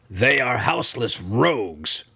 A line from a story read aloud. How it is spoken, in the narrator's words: she spat in response